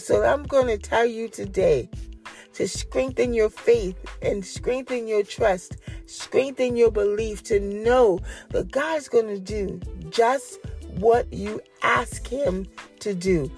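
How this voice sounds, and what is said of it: Rough, strained voice from sore throat. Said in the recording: “excuse my voice. ... It's my throat. I got a little cough this morning”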